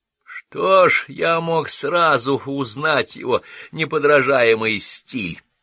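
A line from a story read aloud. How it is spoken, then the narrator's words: Low booming voice. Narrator (Russian): прогудел ее брат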